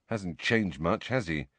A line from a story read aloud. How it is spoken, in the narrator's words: Harry muttered to Ginny